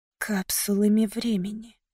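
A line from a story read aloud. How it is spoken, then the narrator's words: Whisper. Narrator (Russian): прошептала я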